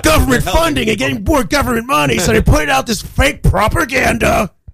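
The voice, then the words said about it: Alex Jones impression. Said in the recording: “That's a good impression, by the way. ... what's the name of that Republican radio show ... Alex Jones ... That sounds just like it. It's crazy. ... It's so good.”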